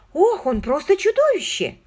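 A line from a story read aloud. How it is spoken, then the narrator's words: Exclaiming. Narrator (Russian): воскликнула Маргот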